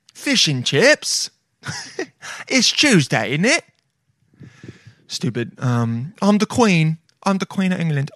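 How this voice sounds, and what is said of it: Put-on English accent. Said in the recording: “Decent accent. Could be better. Getting better.”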